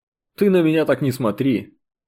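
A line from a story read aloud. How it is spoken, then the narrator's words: Snorting officer. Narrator (Russian): хмыкнул прапорщик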